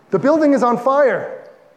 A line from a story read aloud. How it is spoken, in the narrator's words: The receptionist rushed in, shouting